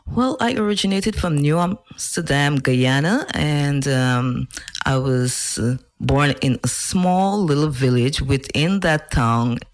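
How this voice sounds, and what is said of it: Interesting accent. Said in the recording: “you have an interesting accent, which is really nice, along with your voice”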